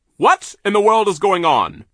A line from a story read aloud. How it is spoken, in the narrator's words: he barked